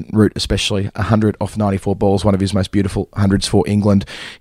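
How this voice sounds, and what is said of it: Tired, strained, fading voice. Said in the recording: “you can hear my voice is going. I've been on air for about 70 overs today.”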